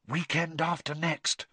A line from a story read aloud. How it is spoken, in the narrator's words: whispered Hermione